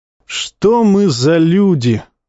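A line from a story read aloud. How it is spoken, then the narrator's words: Sighing. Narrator (Russian): вздохнул Тумидус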